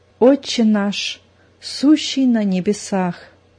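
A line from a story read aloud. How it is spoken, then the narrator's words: Tense whisper. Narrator (Russian): зашептала, напряженно сморщив лоб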